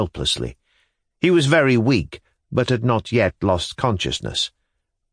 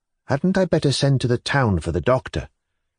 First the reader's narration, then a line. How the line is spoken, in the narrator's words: Sofia Matveyevna asked timidly